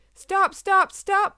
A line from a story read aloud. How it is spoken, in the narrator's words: they screamed in fear